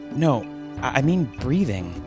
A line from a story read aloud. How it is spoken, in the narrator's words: the man replied nervously